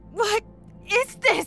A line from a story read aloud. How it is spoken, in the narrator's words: Lana cried, disgusted